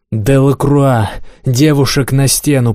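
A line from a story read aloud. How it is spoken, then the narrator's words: Growled. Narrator (Russian): прорычал Монброн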